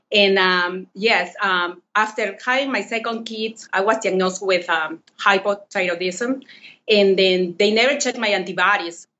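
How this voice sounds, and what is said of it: Non-native Peruvian accent in English. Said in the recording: “from Lima, Peru ... English is not my first language, so bear with me and my accent.”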